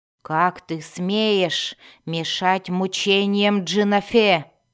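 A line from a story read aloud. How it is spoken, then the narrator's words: Growling. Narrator (Russian): прорычала Йоклол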